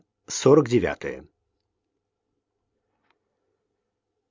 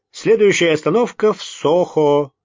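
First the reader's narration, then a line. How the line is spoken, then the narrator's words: Cheerful command. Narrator (Russian): весело скомандовал Райт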